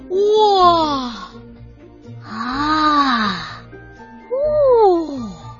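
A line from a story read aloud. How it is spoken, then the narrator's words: Sniffling, deeply moved monster. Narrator (Chinese): 一个吸溜鼻子的声音，那是怪兽首领，他也被深深的感动了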